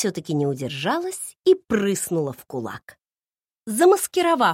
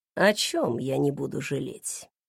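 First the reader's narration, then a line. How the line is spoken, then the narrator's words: Purred. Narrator (Russian): промурлыкал он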